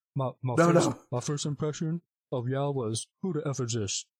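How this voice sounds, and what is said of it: Imitates another person's voice. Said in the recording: “I want to read that like Shaq ... that's my Shaq impression right there.”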